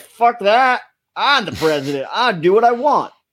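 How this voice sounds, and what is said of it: Southern oil magnate voice impression. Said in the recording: “Great Biden impersonation, by the way. ... He sounded exactly like a southern oil magnate.”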